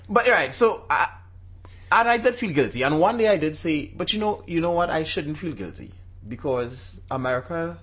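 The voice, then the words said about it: Foreign, non-American accent. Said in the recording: “in a foreign accent ... I don't have the decency to adopt a good American accent.”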